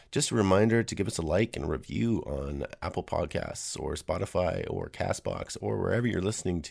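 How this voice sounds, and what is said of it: Unwell-sounding voice. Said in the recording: “Sorry about my voice. I'm getting over a cold.”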